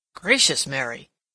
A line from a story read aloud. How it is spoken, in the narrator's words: exclaimed